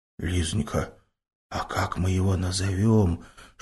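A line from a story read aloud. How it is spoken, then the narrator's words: Tender whisper. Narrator (Russian): шепотом поинтересовался Стефан, с умилением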